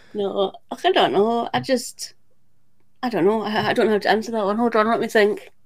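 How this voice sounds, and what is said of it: Scottish accent. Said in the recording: “as Americans, we love the accent ... what beautiful accents we've got ... I've listened to so many Scottish Murders episodes, I think I've actually got the accent down now. I think it's Scottish.”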